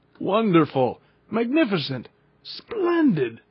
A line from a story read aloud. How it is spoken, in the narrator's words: cried my uncle